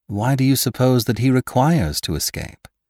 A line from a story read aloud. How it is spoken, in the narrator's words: replied Beautrelet